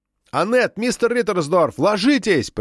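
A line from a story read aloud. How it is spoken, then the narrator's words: Shout. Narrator (Russian): прокричал Габриэль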